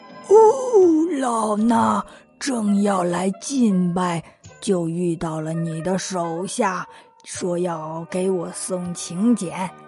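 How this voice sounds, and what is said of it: Imitating the Elder Jinchi's voice. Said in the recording (Chinese): “悟空学着金池长老的声音说道”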